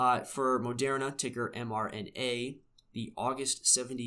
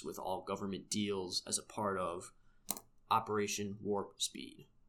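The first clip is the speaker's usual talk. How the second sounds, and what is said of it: Imitates a movie villain's voice. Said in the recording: “my Dr. Evil voice”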